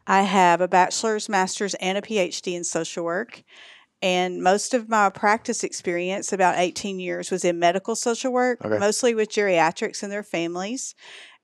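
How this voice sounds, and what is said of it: Texas accent. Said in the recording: “I'm originally from Texas, and that's the accent you hear. ... Sometimes it's more prevalent than others.”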